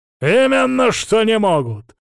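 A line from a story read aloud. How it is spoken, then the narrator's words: Barked. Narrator (Russian): рявкнул отец Савелий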